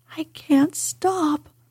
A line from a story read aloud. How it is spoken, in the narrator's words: he gasped and sobbed